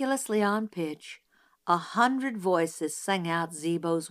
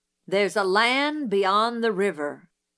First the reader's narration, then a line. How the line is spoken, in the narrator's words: read in a voice like the rumble of distant artillery